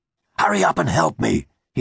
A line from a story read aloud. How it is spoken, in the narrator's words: hissed